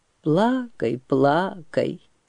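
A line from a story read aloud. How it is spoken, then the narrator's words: Soft sad voice. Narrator (Russian): печально говорил Турай мягким своим голосом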